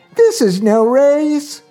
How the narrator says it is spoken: exclaimed

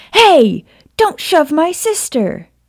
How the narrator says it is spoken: James yelled

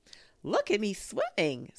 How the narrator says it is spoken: squeaked Roo from the middle of his pool

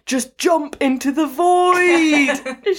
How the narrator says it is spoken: she shouted

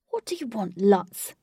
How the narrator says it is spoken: snapped Wraith

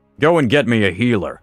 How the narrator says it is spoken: said, in a commanding tone

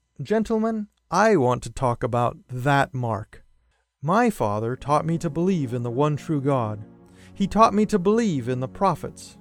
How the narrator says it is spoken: In a kind tone, I began

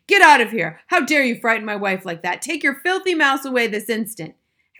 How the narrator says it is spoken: Jenkins was towering over her, shouting

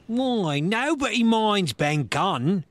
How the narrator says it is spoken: cried Merry

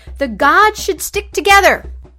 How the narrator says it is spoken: he roared at Prometheus

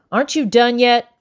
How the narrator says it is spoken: Becky yelled from the back door

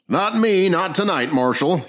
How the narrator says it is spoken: yelled Jackson

